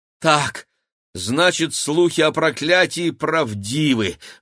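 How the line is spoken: Breathed out. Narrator (Russian): выдохнул Игорь

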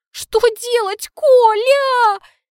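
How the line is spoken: Sobbing. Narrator (Russian): рыдаю я

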